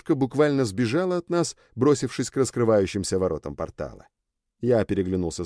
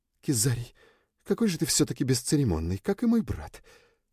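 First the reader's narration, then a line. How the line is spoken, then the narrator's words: Displeased whisper. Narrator (Russian): с недовольством прошептала Люча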